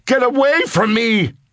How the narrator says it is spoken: screamed

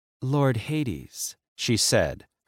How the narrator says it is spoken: her voice breathy and sensual

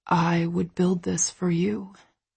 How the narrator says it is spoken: he whispers

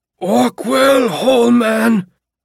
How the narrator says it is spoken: he screamed in his muffled voice

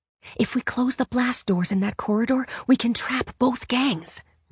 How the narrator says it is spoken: Ray whispered back

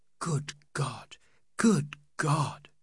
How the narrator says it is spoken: the women murmur

